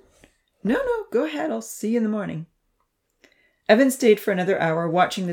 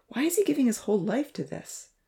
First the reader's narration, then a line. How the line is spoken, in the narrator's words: Evan sighed, feeling another twinge of conscience